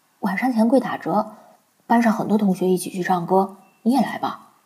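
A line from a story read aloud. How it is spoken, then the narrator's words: Cheerful, grinning. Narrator (Chinese): 他笑嘻嘻的 说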